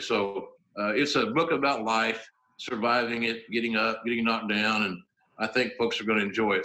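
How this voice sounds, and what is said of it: Southern American accent. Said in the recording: “Southern accent”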